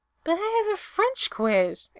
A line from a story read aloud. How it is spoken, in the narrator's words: Erica whines